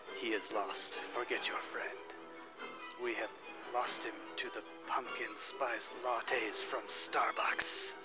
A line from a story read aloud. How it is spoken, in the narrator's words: a gigantic blue dragon whispers in his ear